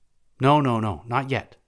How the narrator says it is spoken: exclaimed the Suffet

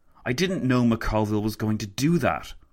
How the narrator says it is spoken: Lloyd George spat

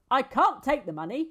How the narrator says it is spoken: he said

